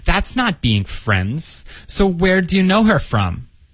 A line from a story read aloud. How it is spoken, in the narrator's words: she said impatiently